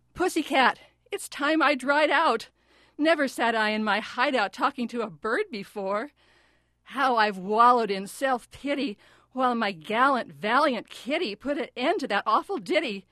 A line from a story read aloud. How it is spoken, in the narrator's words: pickled poet cried out